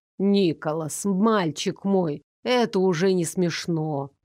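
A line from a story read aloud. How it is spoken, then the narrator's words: Deep bass voice. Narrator (Russian): пробасил Брон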